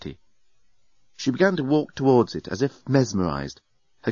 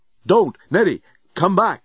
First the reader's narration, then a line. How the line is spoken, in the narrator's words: Dan yelled